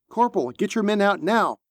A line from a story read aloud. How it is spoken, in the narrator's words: Merriweather shouted again